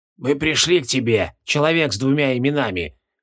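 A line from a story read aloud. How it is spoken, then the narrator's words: Hoarse. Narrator (Russian): хрипло сказал Аюки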